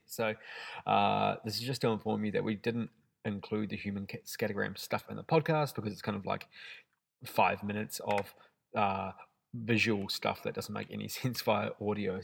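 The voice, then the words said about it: Congested voice from a head cold. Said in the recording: “Monday ... with a head cold rather than Sunday ... with just the regular mumbling Kiwi accent”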